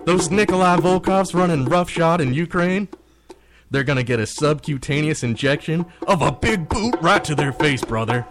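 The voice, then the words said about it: Imitates another person's voice. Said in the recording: “I love the Hogan accent. ... I like the accent. I like the brother.”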